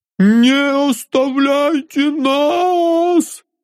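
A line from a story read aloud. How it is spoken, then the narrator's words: Frantic scream, sobbing, leader. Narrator (Russian): Истошно закричал предводитель, все еще всхлипывая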